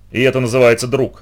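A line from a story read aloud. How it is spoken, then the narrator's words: Snapped. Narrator (Russian): огрызнулся он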